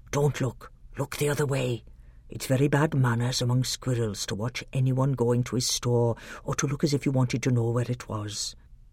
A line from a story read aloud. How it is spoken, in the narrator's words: Truffle Hunter whispered in Caspian's ear